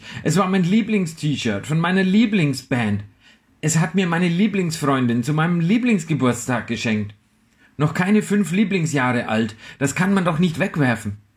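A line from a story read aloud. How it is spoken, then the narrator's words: Screaming. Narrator (German): schrie ich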